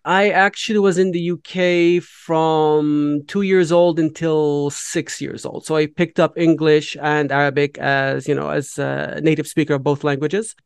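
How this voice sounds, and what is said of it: Melodic accent. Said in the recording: “you've got a wonderful accent ... it's melodic”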